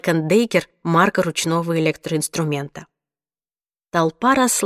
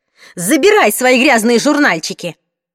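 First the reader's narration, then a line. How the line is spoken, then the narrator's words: Shouted. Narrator (Russian): крикнула она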